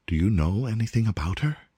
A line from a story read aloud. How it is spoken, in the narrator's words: said Wolfgang eagerly